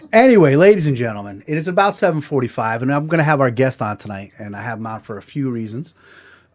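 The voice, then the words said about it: Hoarse, froggy voice. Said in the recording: “my voice, I'm like starting to lose my voice ... you're getting a little froggy”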